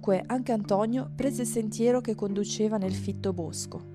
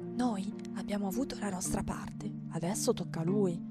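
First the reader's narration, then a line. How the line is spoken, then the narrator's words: Whisper. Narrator (Italian): bisbigliò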